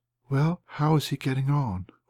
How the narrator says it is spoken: whispered a voice which thrilled through me

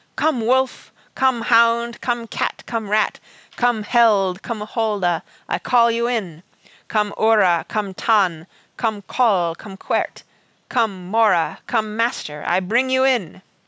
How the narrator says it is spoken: He called out in a strong, clear voice

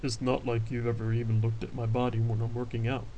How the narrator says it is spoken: Brian commented, his rumbling voice low and even

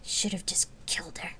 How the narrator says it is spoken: Celesta whispered

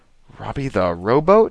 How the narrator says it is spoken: she said, and choked a little

